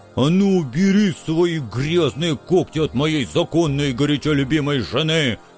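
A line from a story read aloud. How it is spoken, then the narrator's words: Jealous offended roar. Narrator (Russian): Ревнивым бизоном взревел оскорбленный бульдозер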